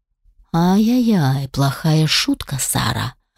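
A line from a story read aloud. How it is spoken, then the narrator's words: Through gritted teeth. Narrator (Russian): процедил Алишер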